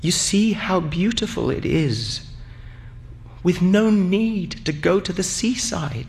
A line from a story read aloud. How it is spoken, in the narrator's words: In a trembling voice, she said